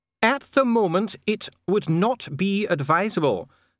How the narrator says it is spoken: said Dee, raising his voice again over the noise

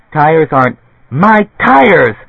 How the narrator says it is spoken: Shrieking

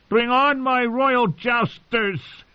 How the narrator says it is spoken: he shouted in a voice thick with wine

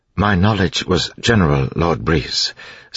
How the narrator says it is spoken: Sazed said in his even voice

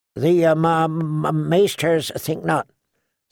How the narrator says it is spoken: Sam stammered

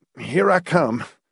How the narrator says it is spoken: he grunted

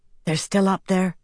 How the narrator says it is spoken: Nynaeve whispered

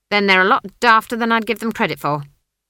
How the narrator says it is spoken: she snapped

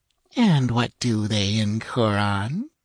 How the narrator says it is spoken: cooed Salome

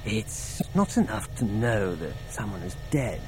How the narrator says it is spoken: he whispered

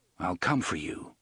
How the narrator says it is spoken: Roland said in the same low voice

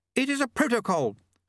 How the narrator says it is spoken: snapped Lady Lejeune

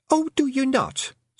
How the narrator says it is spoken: said Fionn sharply

